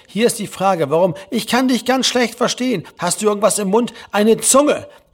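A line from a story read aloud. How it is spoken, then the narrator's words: Venomous shout. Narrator (German): rief Herr Lehmann giftig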